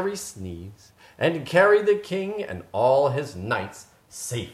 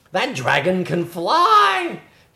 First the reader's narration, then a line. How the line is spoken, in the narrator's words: He exclaimed